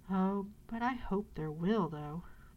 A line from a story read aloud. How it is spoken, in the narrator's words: replied the little boy wistfully